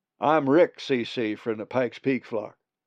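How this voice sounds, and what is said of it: Peculiar drawly accent. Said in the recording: “a peculiar drawly accent”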